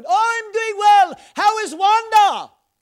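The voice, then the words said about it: Shouting quoted voice. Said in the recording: “why are you shouting?”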